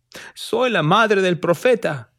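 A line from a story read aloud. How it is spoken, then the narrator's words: Shouting. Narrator (Spanish): gritó Lucy Smith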